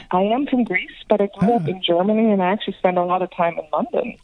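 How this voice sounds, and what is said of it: Slight European accent. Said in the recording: “You've got a bit of a European accent, not like mine”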